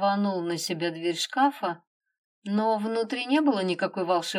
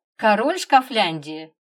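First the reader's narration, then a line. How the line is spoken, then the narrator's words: Even more mocking smirk. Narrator (Russian): еще более насмешливо ухмыльнулся Егор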